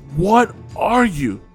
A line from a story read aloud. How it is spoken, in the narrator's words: He gasped out, terror clutching about his heart